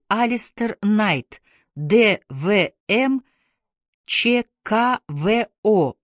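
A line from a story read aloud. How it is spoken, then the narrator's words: Plain. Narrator (Russian): ветеринар ответил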